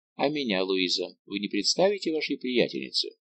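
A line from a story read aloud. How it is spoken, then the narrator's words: Plain. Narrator (Russian): спросил он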